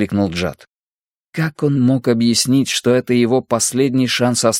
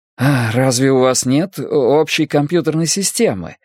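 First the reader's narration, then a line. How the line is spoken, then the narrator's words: Ingratiating question. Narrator (Russian): спросил Джад, выдавив из себя заискивающую улыбку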